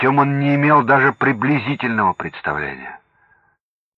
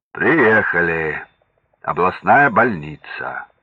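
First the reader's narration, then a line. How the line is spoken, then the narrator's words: Deep announcer-like bass. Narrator (Russian): Голосом заправского водителя, объявляющего остановки, пробасил Иван Иванович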